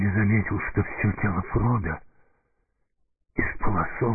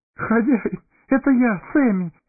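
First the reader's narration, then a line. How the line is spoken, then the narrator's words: Sobbing. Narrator (Russian): всхлипнул хоббит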